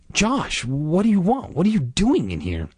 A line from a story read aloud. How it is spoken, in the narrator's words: gasped